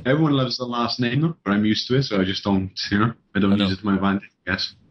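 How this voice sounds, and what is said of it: Welsh British accent. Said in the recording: “having the British accent, like, especially a Welsh accent.”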